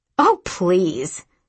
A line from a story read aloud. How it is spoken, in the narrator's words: snapped Mummy